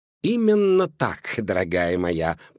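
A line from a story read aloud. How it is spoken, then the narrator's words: Purr. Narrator (Russian): промурлыкала Жозефина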